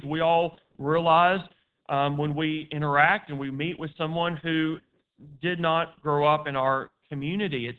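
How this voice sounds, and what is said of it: Distinctive West Tennessee accent. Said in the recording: “I personally have a distinctive West Tennessee accent.”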